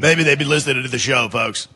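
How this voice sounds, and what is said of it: Generic morning radio host voice. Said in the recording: “That's a pretty good radio voice. It's not really my Alex Jones. It's kind of a morning guy general.”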